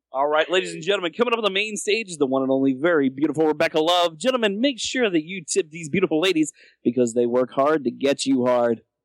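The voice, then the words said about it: Strip club DJ announcer voice. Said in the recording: “strip club DJ voice”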